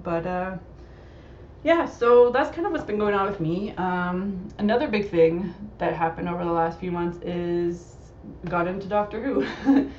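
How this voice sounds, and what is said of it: Slightly hoarse voice. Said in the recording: “my voice sounds a bit off today. I'm kind of going a little bit hoarse today. I think I'm getting a little cold”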